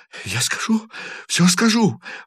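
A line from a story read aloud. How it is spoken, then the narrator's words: Sobbing, hurried. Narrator (Russian): рыдающим голосом торопливо повторял лейтенант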